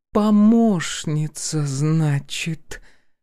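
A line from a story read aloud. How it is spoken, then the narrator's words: Drawling, appraising. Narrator (Russian): протянула Полина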